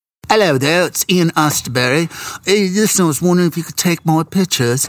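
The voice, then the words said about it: Bad put-on English accent. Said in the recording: “This is a really bad English accent”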